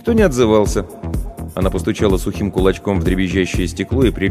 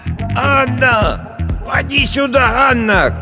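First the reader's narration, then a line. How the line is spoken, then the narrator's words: Old woman shouting. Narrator (Russian): кричала старая Агафья в завешенное пожелтевшим тюлем окно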